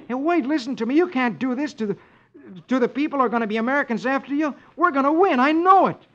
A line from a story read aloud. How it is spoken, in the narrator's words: exclaims